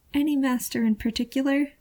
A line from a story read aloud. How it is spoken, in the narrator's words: the Guardian asks, their voice thin with uncertainty